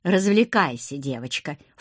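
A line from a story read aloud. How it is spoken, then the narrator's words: Snort. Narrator (Russian): фыркнул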